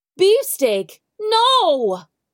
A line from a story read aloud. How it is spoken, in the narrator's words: cried Baptiste